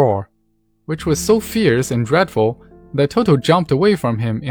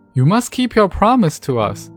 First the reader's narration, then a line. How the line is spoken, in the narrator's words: exclaimed Dorothy